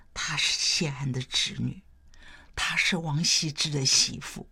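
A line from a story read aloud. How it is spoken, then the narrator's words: Low voice. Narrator (Chinese): 有人低声说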